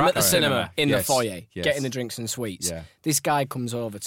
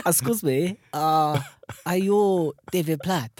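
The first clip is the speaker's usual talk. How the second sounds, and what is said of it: Put-on Italian accent. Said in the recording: “I'm gonna attempt an Italian accent now.”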